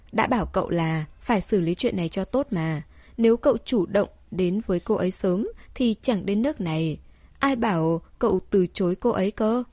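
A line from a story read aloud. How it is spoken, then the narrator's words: Tongue click, sighing. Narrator (Vietnamese): Hoắc Thần Đông tặc lưỡi, thở dài nói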